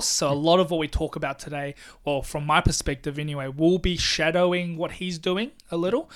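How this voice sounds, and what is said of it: New Zealand accent. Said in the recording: “He's Kiwi. He's from New Zealand. ... he's a Kiwi, so he's got a similar accent to you.”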